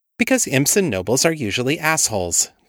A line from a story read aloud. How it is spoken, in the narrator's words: said brightly